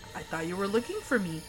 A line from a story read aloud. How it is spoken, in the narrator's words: the man says calmly